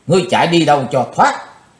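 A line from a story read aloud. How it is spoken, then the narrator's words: Loud shout. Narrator (Vietnamese): Chí Tôn hét to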